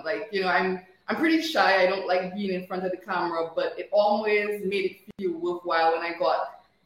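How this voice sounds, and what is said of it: Dominican accent. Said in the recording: “are you from Dominica? ... I know that accent.”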